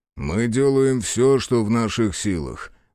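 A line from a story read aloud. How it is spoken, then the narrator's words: Sigh. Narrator (Russian): вздохнул тот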